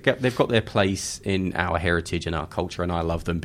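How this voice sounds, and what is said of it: British English accent. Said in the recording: “Being British... Are you British, mate? I just picked up on that.”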